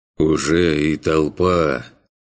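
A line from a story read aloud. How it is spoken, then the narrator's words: Heavy, weary sigh. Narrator (Russian): Тягостно вздохнул Мейфорд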